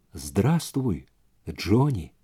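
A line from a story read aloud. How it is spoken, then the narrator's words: Whisper. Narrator (Russian): прошептала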